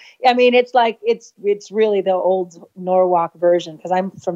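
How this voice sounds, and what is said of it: Usual voice. Nothing is said of it.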